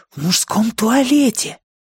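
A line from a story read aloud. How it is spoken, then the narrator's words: Whispered reply. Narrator (Russian): также шепотом ответил Джон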